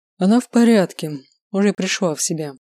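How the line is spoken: Sighing. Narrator (Russian): вздохнул Артур

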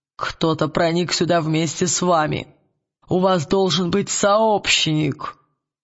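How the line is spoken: Grating creak. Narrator (Russian): проскрипел он

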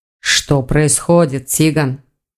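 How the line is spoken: Gloomy question. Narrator (Russian): мрачно спросил Элгар

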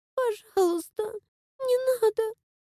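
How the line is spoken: Quiet whimpering dazed plea. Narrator (Russian): Тихим, скулящим голосом попросила, все еще оглушенная произошедшим

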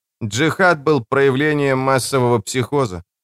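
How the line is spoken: Mutter. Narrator (Russian): пробормотал Лето

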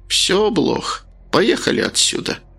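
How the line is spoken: Sighing. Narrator (Russian): вздохнула страница

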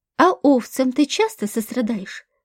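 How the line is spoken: Plain. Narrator (Russian): спросил второй

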